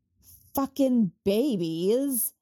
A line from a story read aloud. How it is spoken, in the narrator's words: Sarah snarls